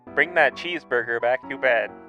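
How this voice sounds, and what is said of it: Funny put-on character voice. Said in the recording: “I was all talking in a funny voice.”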